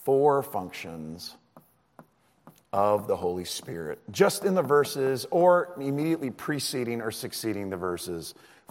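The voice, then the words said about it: Hoarse voice, slowed speech. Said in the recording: “Thanks for being super patient with my speech rate. I'm trying to make sure I don't go hoarser.”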